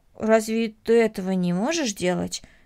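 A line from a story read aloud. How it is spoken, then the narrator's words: Plain. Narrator (Russian): спросила Корнелли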